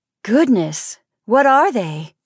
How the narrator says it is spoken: I exclaimed

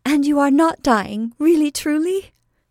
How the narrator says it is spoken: cried Belle

